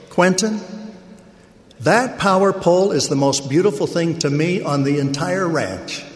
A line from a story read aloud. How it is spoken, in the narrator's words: My father, an exceptional, practical, and calm man, exclaimed with some emotion